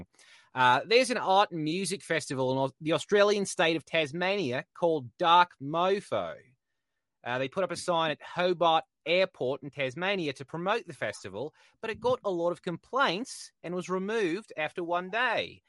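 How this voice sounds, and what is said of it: Fairly good put-on Australian accent. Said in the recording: “I'm going to throw on an Australian accent. ... I was kind of blown away by the accent. It wasn't half bad”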